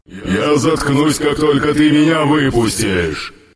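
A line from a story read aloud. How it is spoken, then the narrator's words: Growl. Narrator (Russian): Прорычал на это Йонер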